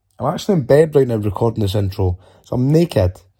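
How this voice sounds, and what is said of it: Husky, congested voice. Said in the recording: “I've got a bit of a cold ... I sound quite sexy, don't I?”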